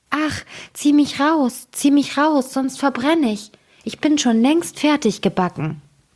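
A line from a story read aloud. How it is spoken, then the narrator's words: Bread calling out. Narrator (German): Das Brot aber rief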